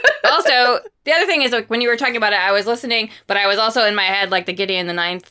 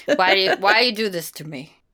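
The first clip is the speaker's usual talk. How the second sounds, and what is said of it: Bad imitation of an old woman. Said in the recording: “my very pathetic imitation of the old lady from The Exorcist”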